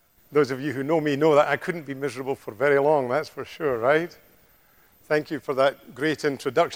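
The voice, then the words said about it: Scottish accent. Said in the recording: “I certainly haven't lost my accent ... it may sound to some of you like Sean Connery ... it's quite like Sean Connery because he comes from a place in Scotland uh, very close to me”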